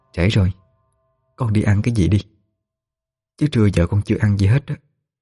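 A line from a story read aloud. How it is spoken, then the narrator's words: Soft voice in ear. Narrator (Vietnamese): chị Diễm nhỏ giọng nó vào tai nó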